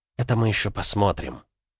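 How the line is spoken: Huntress whispering. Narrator (Russian): шепнула охотница

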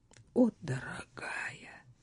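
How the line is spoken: Tender. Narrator (Russian): нежно произнес он

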